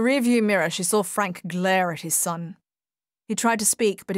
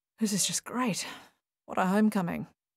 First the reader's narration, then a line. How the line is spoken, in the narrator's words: murmured Paul